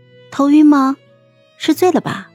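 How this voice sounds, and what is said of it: Soft, quiet questioning voice. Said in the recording (Chinese): “小声的问了他”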